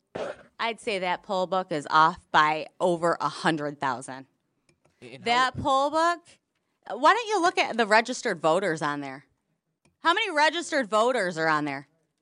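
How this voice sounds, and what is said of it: Minnesota-sounding accent, possibly drunk. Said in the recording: “Drunk woman. ... Why does she have a Minnesota accent?”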